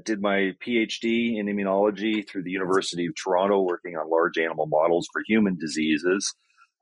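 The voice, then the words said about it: Canadian accent. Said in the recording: “Canadian originally. Hopefully the accent doesn't throw anybody.”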